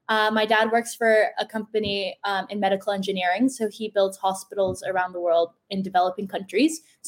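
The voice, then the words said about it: American-sounding accent. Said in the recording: “So most of my teachers were American. Most of my friends were American, hence the accent.”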